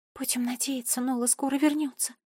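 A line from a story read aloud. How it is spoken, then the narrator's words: Whispering. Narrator (Russian): прошептала Алиса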